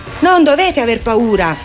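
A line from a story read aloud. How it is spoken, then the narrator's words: Shouting. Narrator (Italian): gridò loro Pippi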